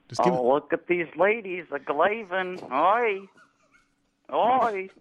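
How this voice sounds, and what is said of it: Jerry Lewis impression. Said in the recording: “do a Jerry Lewis impression ... Give it like a good 15 seconds of Jerry riffing”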